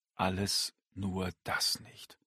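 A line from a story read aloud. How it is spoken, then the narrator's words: Murmur. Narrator (German): murmelte er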